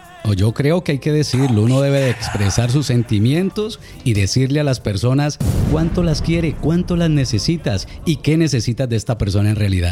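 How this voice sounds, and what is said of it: Good radio announcer voice. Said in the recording (Spanish): “Tiene buena voz ... tiene voz de locutor.”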